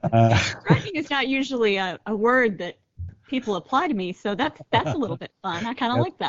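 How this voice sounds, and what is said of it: Usual voice. Nothing is said of it.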